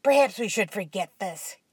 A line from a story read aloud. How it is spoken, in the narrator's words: Ken said coldly